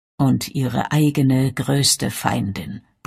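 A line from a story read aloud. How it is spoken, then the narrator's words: Grumbling. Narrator (German): brummte Derek Luscombe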